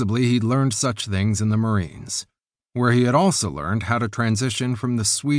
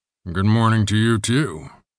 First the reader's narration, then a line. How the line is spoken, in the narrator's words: rumbled her older brother Matthias, sounding obnoxiously alert